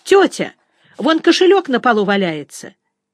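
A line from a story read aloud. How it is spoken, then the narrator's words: Boy shouting. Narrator (Russian): какой-то мальчишка крикнул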